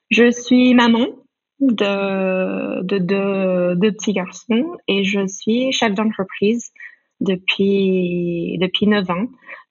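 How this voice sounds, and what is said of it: American accent speaking French. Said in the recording (French): “une américaine ... je garde mon, mon accent, j'arrive pas à le, perdre”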